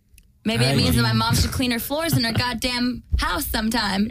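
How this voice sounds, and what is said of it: Valley girl accent. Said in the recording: “a valley girl accent”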